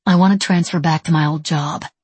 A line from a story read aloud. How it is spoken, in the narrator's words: she said